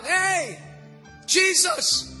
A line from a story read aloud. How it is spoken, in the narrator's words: he was blind, and he screamed out